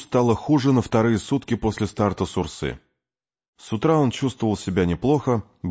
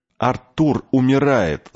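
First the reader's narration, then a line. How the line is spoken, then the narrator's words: Shout. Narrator (Russian): закричал Томми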